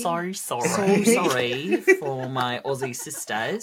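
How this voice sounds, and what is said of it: Put-on Australian accent. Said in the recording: “apologize in an Australian accent”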